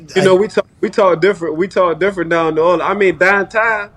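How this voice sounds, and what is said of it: Cajun accent. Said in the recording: “the fucking Cajun accent ... that accent, your accent”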